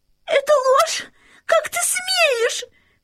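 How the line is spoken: Shouting. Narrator (Russian): закричала принцесса

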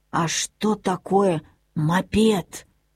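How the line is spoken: Grandmother whispering. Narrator (Russian): прошептала бабушка

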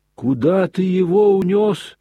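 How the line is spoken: Heart-rending madwoman's wail. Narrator (Russian): раздирающим голосом завопила помешанная

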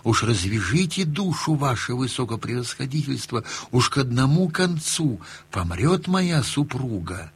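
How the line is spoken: Humble whispered question. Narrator (Russian): купец и спрашивает его шепотком смиренно

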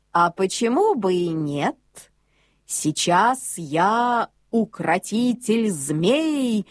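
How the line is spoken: Plain. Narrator (Russian): ответил Бьорн

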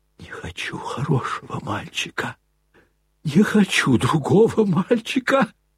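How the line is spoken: Wild whisper through gritted teeth. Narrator (Russian): Прошептал он диким шепотом, скрежеща зубами

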